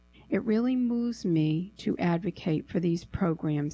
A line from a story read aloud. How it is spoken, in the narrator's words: he said